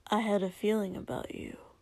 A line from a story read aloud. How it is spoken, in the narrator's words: Kotsky said a little shyly and a little quietly